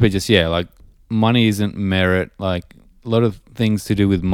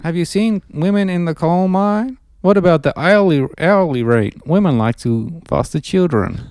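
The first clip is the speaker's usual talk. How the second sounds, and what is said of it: Impression of Jordan Peterson. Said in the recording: “It was amusing to watch you impersonate Peterson. You need to do high pitch though.”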